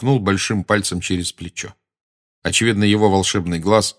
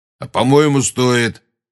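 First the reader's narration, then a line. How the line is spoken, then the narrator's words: Grumbling. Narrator (Russian): проворчал Грюм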